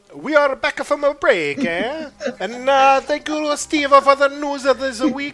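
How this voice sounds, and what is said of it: Very bad put-on Italian accent. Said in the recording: “Worst Italian impression ... ever ... That's awful. That's really bad ... you gotta do an Italian accent”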